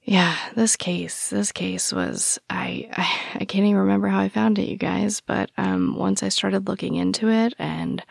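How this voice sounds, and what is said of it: Strained, soft sore-throat voice. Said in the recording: “sorry for my voice. ... My throat really hurts ... I might be a little more soft-spoken”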